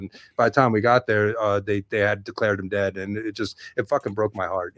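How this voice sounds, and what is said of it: Choked-up, emotional voice. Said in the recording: “I'm getting a little choked up right now”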